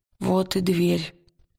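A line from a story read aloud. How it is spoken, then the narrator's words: Hoarse, tense voice. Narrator (Russian): хриплым напряженным голосом сказал Уилл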